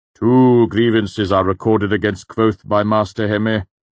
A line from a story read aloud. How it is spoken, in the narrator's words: the Chancellor said sternly